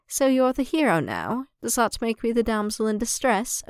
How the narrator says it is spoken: Obi-Wan mused dryly

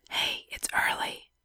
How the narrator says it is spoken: Nix whispered

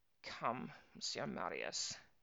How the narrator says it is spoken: she said bitterly

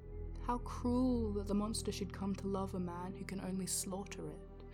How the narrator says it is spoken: the voice was whispered

